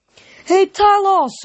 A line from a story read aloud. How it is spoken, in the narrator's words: Grover yelled